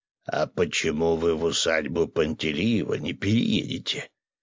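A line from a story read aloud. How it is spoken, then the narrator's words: Deep bass voice. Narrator (Russian): пробасил Виктор Давидович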